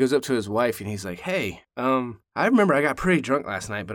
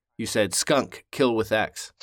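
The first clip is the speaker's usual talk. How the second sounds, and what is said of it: Triumphant voice. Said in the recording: “in a very triumphant voice”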